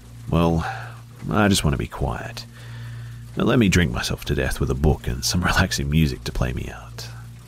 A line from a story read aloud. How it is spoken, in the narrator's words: I sighed